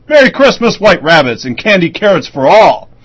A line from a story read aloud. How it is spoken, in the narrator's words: He chuckles and laughs and bells with a loud voice